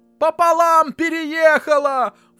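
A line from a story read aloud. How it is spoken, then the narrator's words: Shrill male voice echoing. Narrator (Russian): вторил ему визгливый мужской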